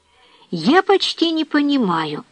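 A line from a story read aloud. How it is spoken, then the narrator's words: Female exclamation. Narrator (Russian): воскликнула Жозефина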